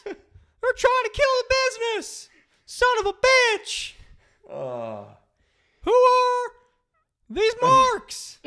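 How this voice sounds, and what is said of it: Jim Cornette impression. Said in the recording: “your Jim Cornette impersonation or your Jerry Seinfeld impersonation? ... Jim Cornette!”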